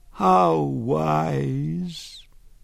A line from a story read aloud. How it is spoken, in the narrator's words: She sighed, conveying in the sibilant release of breath infinite yearning, infinite regret